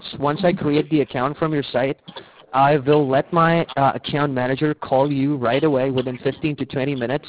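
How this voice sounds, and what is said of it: Slight mixed British-American accent. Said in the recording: “I just detected a slight accent ... I have a mixed accent ... I'm from North London ... I've been living in the U.S. for around, like, 8 years ... a lot of people tell me that I have a mixed accent ... That was a slight accent that I hear.”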